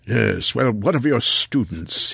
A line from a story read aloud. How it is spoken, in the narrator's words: Hillier growled again